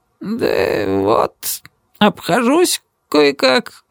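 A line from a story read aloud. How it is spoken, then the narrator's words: Mumbling, head lowered. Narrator (Russian): пробормотал он, опустив голову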